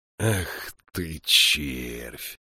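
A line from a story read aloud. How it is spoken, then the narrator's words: Quiet. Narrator (Russian): тихо сказал монах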